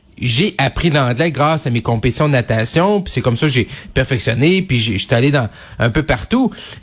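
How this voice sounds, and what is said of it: Quebec French accent, Lac-Saint-Jean. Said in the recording (French): “je suis un, un fier bleuet du lac Saint-Jean. Je veux dire, je parle français avec mon accent”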